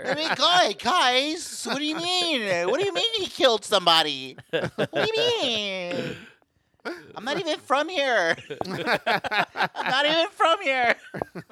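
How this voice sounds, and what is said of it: Valley-style voice. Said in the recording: “Does the Valley voice?”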